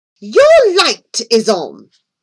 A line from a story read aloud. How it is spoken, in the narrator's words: Millington snapped